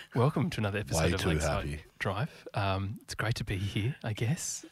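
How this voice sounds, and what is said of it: Whispered speech. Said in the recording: “So I'm going to whisper this ... Whispering at me.”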